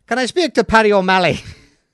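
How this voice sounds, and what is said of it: Bad imitation of drunk Irish accent. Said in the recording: “a very drunken Irishman asking, and I'll do the accent badly”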